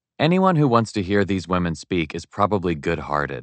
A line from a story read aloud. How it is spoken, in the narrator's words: I said